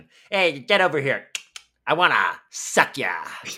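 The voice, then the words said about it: Burt Reynolds impression. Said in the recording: “He did a really good impression. ... I'll give you a little taste of that impression. ... I believe it was Sir Burt Reynolds.”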